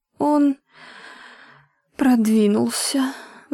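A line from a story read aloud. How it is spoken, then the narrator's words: Sighing darning needle. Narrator (Russian): вздохнула штопольная игла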